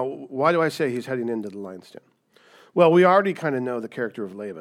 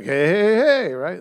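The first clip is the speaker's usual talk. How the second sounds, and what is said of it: Fat Albert character voice. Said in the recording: “my Fat Albert impersonation.”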